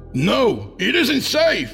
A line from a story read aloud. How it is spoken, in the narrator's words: I shouted